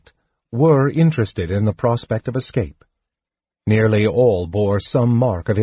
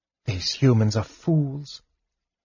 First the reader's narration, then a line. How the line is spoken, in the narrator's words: Laurana said softly